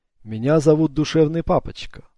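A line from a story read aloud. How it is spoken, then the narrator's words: Plain, old man. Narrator (Russian): сказал старик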